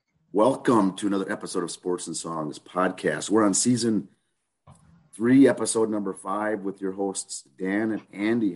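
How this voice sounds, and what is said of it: Raspy, hoarse voice. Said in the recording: “I'm fighting a little chest cold here. I got a raspy voice trying to fight it. ... It's a little little hoarse”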